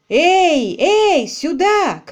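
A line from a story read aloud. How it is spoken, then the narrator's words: Shout while lunging. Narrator (Russian): крикнул Квиллер, рванувшись вперед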